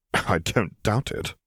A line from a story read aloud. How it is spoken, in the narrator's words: Piet muttered